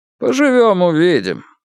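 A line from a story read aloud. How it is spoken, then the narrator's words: Mocking, ungrateful. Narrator (Russian): насмешливо и без тени благодарности сказал Утёс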